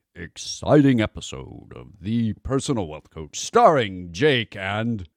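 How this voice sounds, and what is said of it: Exaggerated announcer radio voice. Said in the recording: “let me do my best radio voice for this one ... a radio voice like a 1980s DJ announcing Monster Truck Rally”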